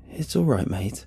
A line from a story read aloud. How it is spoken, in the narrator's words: I mutter, feeling his rising panic in myself, but doing my best to suppress it